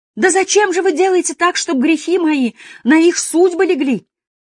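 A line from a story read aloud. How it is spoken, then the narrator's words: Old woman sobbing, fading. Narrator (Russian): Все тише рыдала старушонка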